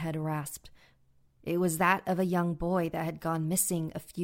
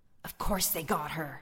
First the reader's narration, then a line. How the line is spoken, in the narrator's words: another head hissed, that of a handsome teen